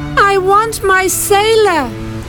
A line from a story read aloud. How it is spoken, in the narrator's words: shouted once more